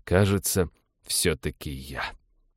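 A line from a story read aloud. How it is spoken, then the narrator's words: Gloomy. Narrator (Russian): уныло заключил парень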